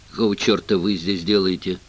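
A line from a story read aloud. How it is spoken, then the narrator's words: Grumbled. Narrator (Russian): пробурчал он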